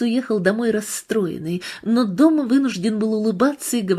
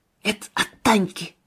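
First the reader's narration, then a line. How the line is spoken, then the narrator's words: Whisper right into ear. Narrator (Russian): прошептал он Федору в самое ухо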